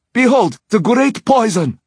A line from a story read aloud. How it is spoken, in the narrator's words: Xinyan shouted